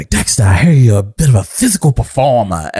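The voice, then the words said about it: Imitates another person's strong accent. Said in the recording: “he has this very, very strong accent.”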